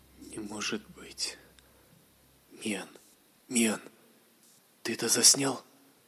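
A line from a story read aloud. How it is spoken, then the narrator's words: Quiet question. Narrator (Russian): Тихо спросил Лориан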